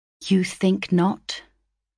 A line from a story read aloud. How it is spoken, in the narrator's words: I resolutely swallowed back my emotion and answered calmly